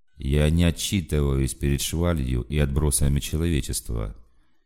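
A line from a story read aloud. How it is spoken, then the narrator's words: Flat even announcement. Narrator (Russian): тем же ровным голосом объявил полковник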